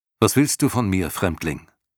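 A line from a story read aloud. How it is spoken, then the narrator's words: Plain. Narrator (German): fragte er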